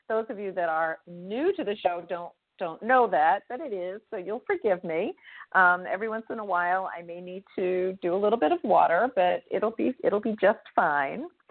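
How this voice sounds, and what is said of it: Slightly raspy voice. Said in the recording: “my voice is a little bit raspy tonight”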